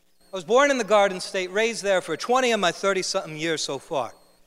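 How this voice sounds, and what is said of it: New Jersey accent. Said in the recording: “I'm from New Jersey... normally I hide my accent, but I'm going to let it all out for you this morning”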